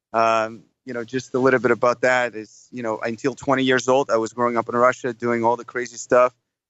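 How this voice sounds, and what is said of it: Slight foreign accent. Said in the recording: “you don't sound like you have a Louisville accent. Your accent sounds a little bit different than that ... such an exotic accent ... Just slight accent.”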